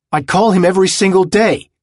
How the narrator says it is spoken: he began, yelling himself

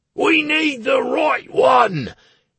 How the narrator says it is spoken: yelled Plinto

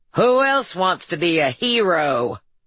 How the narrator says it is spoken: the Marlboro man's voice boomed from the loudspeakers

